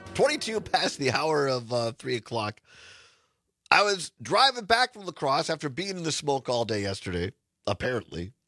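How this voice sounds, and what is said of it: Slightly raspy voice. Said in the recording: “My voice is a little raspy because I was out in the smoke yesterday”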